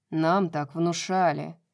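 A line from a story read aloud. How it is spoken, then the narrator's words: Irritated, curt. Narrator (Russian): раздраженно бросил Рун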